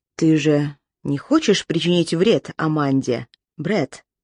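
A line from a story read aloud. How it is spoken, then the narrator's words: Quiet, even voice. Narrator (Russian): сказал он тихим, ровным голосом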